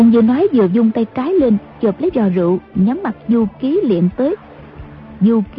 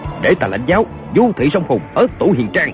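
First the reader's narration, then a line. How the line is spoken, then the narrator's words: Shouting. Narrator (Vietnamese): Kiều Phong quát lên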